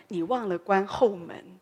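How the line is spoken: Gentle woman. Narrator (Chinese): 他太太就很温柔的跟他说

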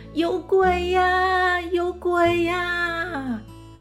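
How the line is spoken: Shouting. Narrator (Chinese): 他大叫着

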